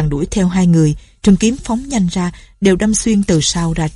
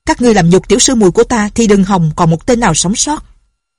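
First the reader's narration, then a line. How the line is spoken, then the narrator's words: Loud angry shout. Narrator (Vietnamese): Lệnh Hồ Xung quát to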